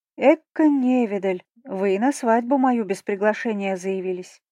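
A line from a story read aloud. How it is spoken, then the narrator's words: Muffled purr. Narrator (Russian): Промурлыкала в ароматную перистую шубку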